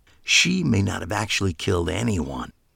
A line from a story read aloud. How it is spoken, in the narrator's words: I said, lowering my voice